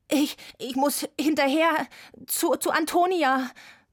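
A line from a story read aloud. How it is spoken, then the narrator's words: Gasping. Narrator (German): japste ich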